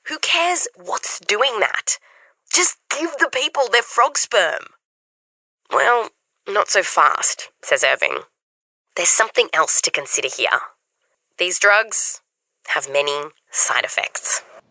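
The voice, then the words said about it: Australian accent. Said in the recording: “Love her Australian accent”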